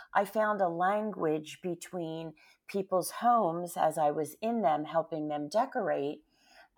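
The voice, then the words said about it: Slightly hoarse voice. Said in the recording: “excuse me if my voice sounds a little hoarse.”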